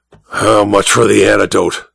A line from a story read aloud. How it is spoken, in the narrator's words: Sangstrom growled